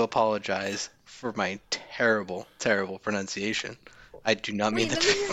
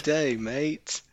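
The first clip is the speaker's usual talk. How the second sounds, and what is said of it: Attempted Australian accent. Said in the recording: “Australian accent”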